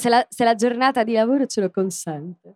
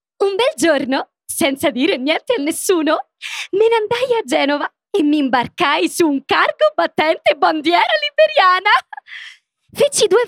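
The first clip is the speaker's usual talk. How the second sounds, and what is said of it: Performs a character's princess voice. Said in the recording (Italian): “con la voce della principessa”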